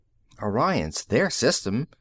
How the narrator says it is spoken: Tony muttered

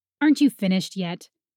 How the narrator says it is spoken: Fritz snapped at the mermaid

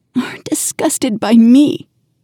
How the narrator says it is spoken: She will whimper

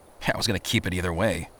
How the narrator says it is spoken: he muttered

